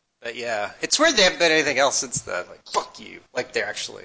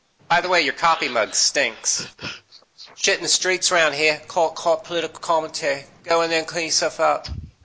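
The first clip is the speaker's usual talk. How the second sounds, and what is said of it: Put-on British accent. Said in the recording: “This is my British accent”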